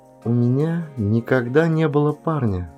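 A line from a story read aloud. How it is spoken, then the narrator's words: Quiet speech. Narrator (Russian): тихо сказала Линда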